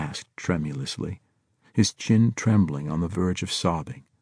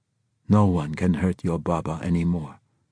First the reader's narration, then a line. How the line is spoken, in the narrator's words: Zayed said